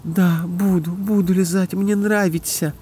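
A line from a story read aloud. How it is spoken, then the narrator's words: Moaning. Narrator (Russian): простонала Катя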